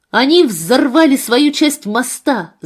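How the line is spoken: Shouting. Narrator (Russian): закричал я

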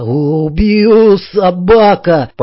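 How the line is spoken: Hoarse rasp. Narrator (Russian): прохрипел он

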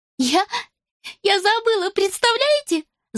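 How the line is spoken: Laughing. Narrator (Russian): засмеялась она

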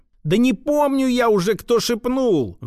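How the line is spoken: Frightened squeal. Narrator (Russian): взвизгнул от испуга скупщик

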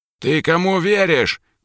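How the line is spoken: Shouting father. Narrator (Russian): кричал папа

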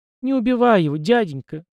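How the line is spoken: Sobbing girl pleading. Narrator (Russian): всхлипывая, попросила девочка

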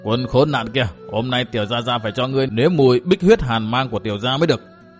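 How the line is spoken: Angry youth speaking. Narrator (Vietnamese): bực tức, giận dữ nói tiếp

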